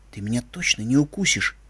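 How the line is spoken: Tender whisper. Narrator (Russian): прошептал я в мохнатое ушко

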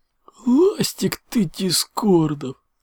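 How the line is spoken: Howl. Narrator (Russian): Взвыл Энсинт

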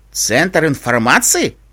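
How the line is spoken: Skeptical snort. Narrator (Russian): хмыкнул Олаф

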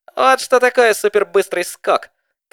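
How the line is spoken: Female shout. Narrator (Russian): крикнула она

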